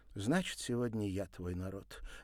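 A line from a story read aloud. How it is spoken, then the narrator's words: Resigned sigh. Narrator (Russian): обреченно вздохнула она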